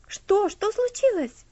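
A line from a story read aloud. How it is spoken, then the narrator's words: Frightened question. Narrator (Russian): спросил Герберт испуганно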